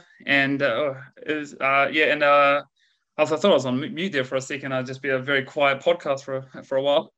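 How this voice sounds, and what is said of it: New Zealand accent. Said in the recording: “if you can't tell from my accent, I'm a Kiwi, now living in Australia.”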